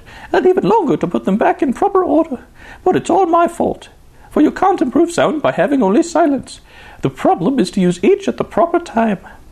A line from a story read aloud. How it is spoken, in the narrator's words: she sobbed